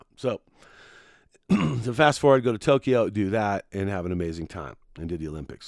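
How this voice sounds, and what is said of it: Hoarse, strained voice. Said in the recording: “Sorry about the voice, man. My voice is hurting. I've been announcing way too many competitions right now.”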